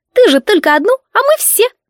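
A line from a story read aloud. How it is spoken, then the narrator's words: Proud, giggling. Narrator (Russian): гордо сообщила Дрита и, хихикая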